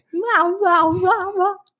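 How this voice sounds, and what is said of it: Imitation of German Shepherd barking. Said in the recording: “That's a terrible impersonation ... pretty good.”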